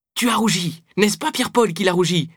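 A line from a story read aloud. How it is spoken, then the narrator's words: Exclaimed. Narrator (French): s'exclama Mathilde Hilard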